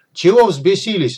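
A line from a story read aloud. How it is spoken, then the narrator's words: Angry shout. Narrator (Russian): заорал на машины Сидорович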